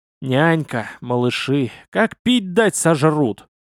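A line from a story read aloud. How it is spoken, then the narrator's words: Sighing. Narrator (Russian): вздохнул я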